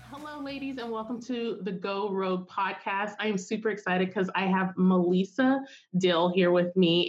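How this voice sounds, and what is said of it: Congested voice from a cold. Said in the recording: “I have a little bit of a cold,”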